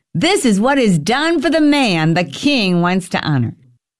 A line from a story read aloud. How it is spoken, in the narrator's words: one of his most trusted nobles shouting